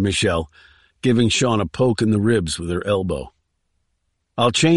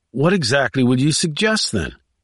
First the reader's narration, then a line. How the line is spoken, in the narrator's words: He asked in an exasperated tone